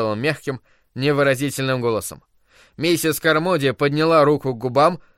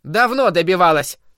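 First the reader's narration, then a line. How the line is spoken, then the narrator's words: Woman shouting from crowd. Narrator (Russian): выкрикнула из толпы женщина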